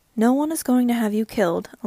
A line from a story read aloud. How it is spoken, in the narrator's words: Elisa said calmly